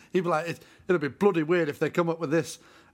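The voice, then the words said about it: Put-on Yorkshire accent. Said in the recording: “I'm not from Yorkshire. ... I can't do any other accent”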